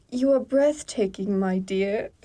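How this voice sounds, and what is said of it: Bad attempt at British accent. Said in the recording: “say that in the correct accent ... What do you think a British person sounds like ... Oh, that was terrible.”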